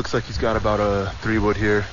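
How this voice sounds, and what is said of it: Golf announcer voice. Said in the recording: “my TPC Sawgrass golf announcer voice”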